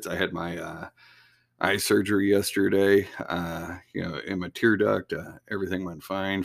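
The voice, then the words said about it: Slightly higher, raspy voice. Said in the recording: “my voice sounds a little higher, you know, a little raspy.”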